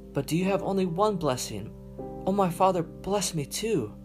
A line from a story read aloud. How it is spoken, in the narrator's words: Esau pleaded